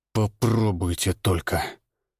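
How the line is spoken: Forced through teeth. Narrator (Russian): выдавил я сквозь зубы

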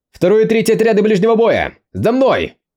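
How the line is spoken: Commanding shout. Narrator (Russian): прокричал Юэ

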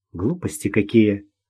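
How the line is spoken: Grumbled mutter. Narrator (Russian): буркнула Ирина

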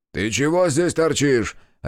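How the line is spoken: Barked. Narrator (Russian): рявкнул охранник

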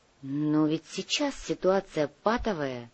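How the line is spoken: Quiet. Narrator (Russian): негромко сказала Лариса

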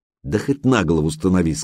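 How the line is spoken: Plain. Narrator (Russian): сказала Алена

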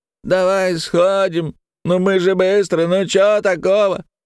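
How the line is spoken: Nasal, mocking mimicry. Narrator (Russian): загнусавил второй голос, передразнивая собеседника

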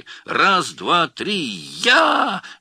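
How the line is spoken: Women shrieking together. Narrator (Russian): визжали жены

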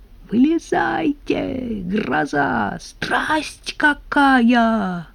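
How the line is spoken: Hoarse shout from above. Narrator (Russian): сверху хрипло закричал Кузя

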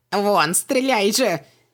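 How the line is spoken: Yelling. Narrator (Russian): завопил Хубаксис

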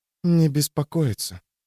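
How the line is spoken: Whisper. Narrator (Russian): прошептала

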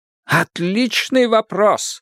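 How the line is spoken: Exclaiming. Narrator (Russian): воскликнул сыщик

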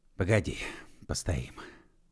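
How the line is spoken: Hoarse, sunken voice. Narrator (Russian): осевшим голосом сказал Егор

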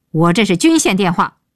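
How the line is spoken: Roaring into phone. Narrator (Chinese): 鹏飞对电话大吼

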